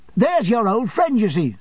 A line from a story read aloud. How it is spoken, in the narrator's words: said Traddles, nodding triumphantly